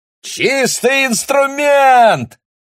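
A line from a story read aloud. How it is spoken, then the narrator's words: Joyful shout. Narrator (Russian): радостно прокричал он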